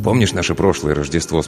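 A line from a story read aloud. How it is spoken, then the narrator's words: Plain. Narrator (Russian): спросил он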